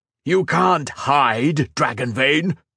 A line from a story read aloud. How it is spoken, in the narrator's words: roared Shinzan